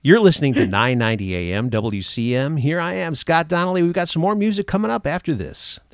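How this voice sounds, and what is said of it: Proper announcer-style radio voice. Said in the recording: “my radio voice... I'm more proper about the way I say words”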